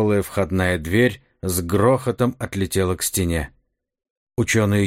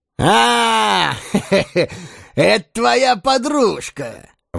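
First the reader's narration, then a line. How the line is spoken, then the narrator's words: Loud joyful exclamation. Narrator (Russian): воскликнул Карвер громко и радостно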